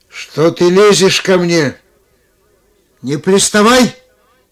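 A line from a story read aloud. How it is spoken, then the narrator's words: Angry shout. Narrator (Russian): Ротшильд рассердился и тоже крикнул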